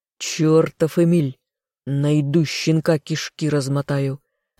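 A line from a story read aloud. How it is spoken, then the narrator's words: Growl. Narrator (Russian): рыкнул кто-то из преследователей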